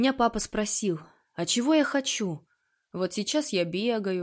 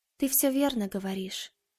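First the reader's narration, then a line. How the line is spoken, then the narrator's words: Quiet. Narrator (Russian): сказала Маша негромко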